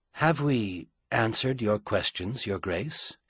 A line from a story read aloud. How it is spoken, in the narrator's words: He asked quietly